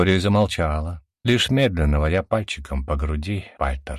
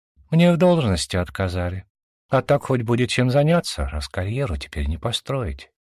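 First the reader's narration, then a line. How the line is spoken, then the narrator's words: Sad smiling voice. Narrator (Russian): грустно улыбнулась девушка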